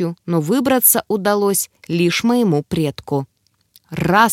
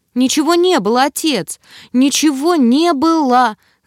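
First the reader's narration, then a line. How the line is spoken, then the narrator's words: Desperate wailing. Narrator (Russian): завопила я, чувствуя, что моя судьба висит на волоске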